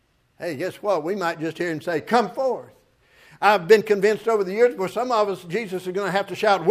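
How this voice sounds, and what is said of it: Usual voice. Nothing is said of it.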